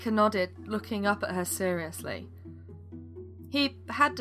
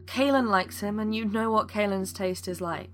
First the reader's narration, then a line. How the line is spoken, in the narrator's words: he started before sighing